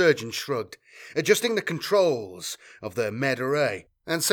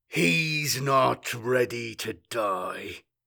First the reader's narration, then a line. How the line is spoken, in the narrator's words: growled Court